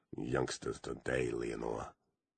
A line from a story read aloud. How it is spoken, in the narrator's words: muttered Turnbull to his absent beloved wife